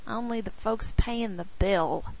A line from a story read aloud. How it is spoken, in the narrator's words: Jake muttered